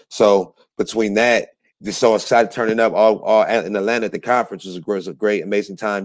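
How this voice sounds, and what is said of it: Strained, worn-out voice. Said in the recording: “That's why my voice is a little shot. So I'm on vocal rest.”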